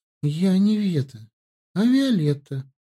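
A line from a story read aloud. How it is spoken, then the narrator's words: Sad reply. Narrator (Russian): грустно ответила Ветка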